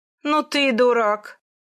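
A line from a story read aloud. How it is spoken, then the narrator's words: Loud laughter. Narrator (Russian): расхохотался Ван Хуньцзюнь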